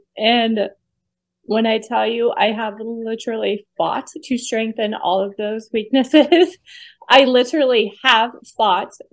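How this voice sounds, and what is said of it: Emotional, choked-up voice. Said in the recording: “I don't know why I'm getting emotional”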